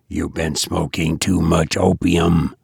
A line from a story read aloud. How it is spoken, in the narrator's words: whispered Hammond